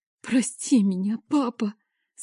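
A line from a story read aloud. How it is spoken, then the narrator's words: Tearful whisper. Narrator (Russian): Сквозь слезы шепчу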